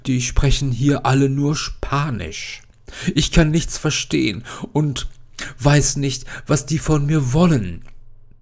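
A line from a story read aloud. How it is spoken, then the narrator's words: Sobbing. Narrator (German): schluchzt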